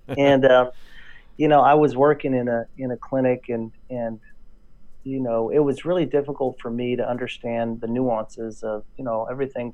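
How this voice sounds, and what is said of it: Texan drawl. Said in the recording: “In case you don't notice a drawl, that's why. I hear it. ... I'm from Texas, born and raised.”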